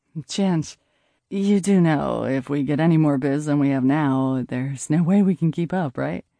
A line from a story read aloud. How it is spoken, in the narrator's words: I sighed